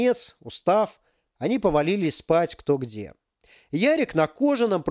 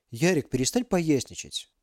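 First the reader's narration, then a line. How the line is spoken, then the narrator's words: Quiet request. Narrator (Russian): тихо попросил Максим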